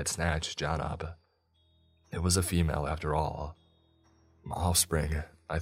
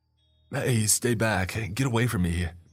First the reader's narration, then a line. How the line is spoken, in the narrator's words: he demanded, desperately